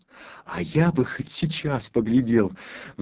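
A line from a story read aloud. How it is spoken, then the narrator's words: Sighed. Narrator (Russian): вздохнул Федюнька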